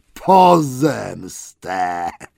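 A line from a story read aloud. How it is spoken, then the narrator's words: Roar. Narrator (Polish): ryknął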